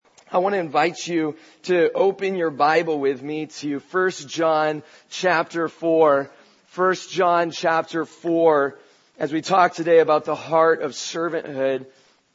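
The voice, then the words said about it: Hoarse, gravelly laryngitis voice. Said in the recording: “I realize I sound a little bit like a mob boss today ... I just have laryngitis”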